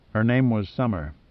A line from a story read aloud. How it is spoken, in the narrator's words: continued quietly